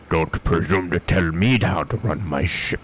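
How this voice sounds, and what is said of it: Bad imitation with Russian accent. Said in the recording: “It was a really bad Sean Connery doing a rushing accent.”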